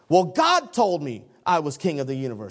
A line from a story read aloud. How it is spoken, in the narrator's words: he shouted